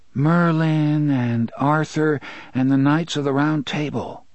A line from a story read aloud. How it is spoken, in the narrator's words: Jake said dreamily